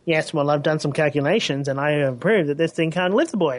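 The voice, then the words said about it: Comic Book Guy impression. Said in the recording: “you've never done that accent before. That was awesome... comic book guy... That's literally the voice I'm talking in”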